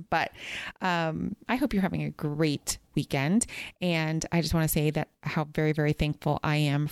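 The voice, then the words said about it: Slightly strained, fading voice. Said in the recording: “My voice is going a little bit because we had so much fun”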